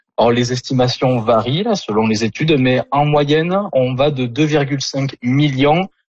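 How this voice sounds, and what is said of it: Southern French accent. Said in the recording (French): “votre accent du sud de la France”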